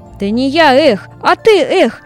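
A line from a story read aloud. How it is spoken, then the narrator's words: Laughing. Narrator (Russian): засмеялся русачок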